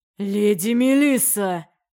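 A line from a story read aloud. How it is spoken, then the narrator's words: Growled. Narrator (Russian): прорычал принц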